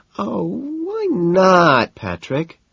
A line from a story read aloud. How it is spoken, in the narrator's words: she whines